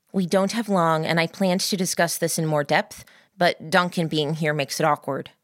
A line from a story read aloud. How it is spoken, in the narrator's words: said